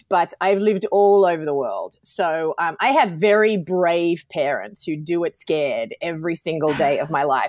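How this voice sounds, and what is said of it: Australian accent. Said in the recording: “I'm Australian, obviously, from my accent”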